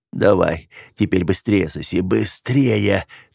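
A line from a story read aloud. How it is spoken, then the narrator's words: Hoarse wheeze. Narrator (Russian): прохрипел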